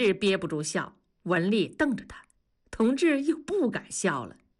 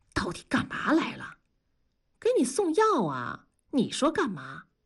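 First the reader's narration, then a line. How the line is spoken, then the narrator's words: Whisper. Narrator (Chinese): 悄声地说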